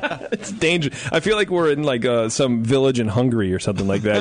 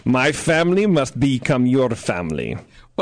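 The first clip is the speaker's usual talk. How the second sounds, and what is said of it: Put-on Hungarian accent. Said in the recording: “my Hungarian accent”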